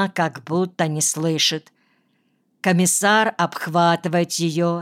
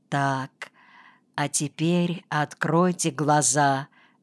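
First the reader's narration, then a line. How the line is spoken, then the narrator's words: Soft, insinuating. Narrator (Russian): говорит вкрадчиво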